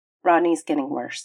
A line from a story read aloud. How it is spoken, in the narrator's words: he said with a sigh